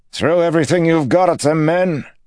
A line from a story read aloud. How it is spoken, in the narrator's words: he bellowed